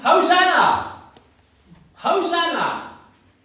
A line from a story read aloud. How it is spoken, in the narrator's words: his followers shouting